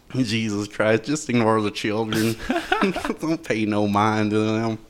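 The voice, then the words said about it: Put-on redneck accent. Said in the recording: “How's my redneck impersonation”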